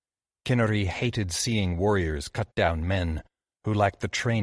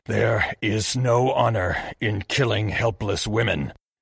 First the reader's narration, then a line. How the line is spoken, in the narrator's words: he snarled at Narihiro